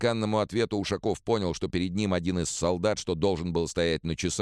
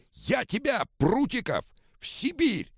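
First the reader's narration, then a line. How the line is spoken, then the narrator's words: Yelling. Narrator (Russian): заорал Ушаков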